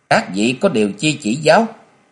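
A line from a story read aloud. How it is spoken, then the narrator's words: Cold. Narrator (Vietnamese): Chàng lạnh lùng nói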